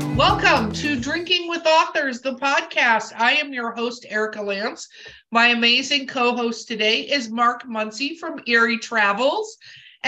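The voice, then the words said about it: Voice with a slight cold. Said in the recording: “I have a little bit of a cold.”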